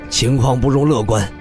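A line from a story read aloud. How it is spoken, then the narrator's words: Deep, low voice. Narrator (Chinese): 李长风沉声道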